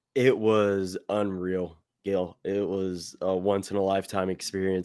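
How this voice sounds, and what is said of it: Slightly hoarse voice. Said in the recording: “you can kind of hear my voice is still a little hoarse from all the cheering”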